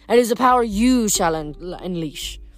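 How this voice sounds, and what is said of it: Heavy French accent. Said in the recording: “said a man's voice in a heavy French accent”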